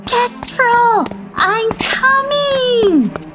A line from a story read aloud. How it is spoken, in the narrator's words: Dilly Dally shouting out